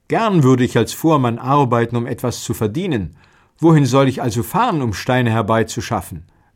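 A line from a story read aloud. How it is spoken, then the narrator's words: Young man, plain. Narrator (German): lachten, doch der Jüngling sagte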